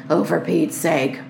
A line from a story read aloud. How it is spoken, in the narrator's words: muttered Henry